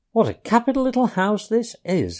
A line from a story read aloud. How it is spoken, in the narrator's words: he called out cheerily